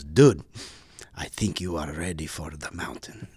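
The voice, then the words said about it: Very heavy foreign accent. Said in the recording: “in a very heavy accent”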